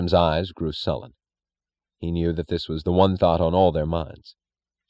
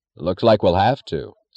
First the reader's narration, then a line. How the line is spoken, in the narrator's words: said the trainmaster